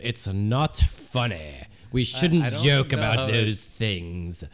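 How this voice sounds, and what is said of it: Put-on British accent. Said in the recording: “with a British accent”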